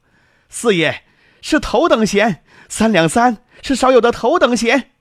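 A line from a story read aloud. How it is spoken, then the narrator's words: Excited and loud. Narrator (Chinese): 郭家良……兴高采烈的大声说道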